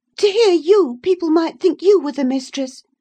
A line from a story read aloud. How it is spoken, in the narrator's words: she cried